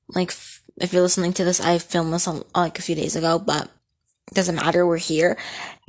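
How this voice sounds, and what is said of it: Slightly scratchy voice. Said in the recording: “sorry if my voice sounds a little scratchy”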